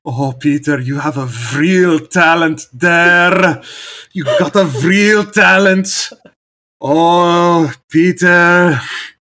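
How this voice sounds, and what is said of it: Put-on Frisian American accent, somewhat Scottish. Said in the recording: “I could do a good Frisian American accent ... Kind of sounds Scottish now that I'm thinking about it.”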